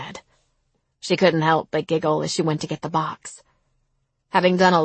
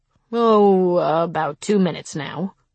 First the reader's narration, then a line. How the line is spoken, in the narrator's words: he said